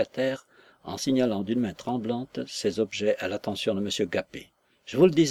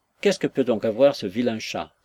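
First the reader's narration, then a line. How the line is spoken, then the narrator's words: Exclaiming. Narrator (French): s'écrie William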